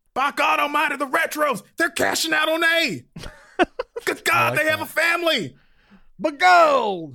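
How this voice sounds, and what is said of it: Old prospector character voice. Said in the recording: “You sounded like an old prospector.”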